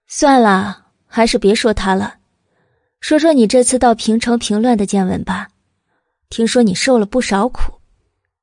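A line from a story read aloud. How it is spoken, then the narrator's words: Smiling, calm. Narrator (Chinese): 慕容九九却始终面上含笑，淡淡的道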